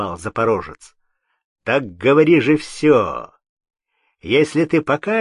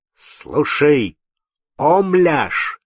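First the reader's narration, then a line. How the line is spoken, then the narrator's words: Menacing shout. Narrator (Russian): закричал грозным голосом Кирша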